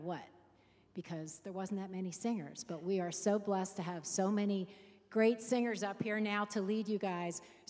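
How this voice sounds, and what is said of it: Hoarse, froggy voice. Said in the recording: “You can hear in my voice that I'm a little froggy this morning”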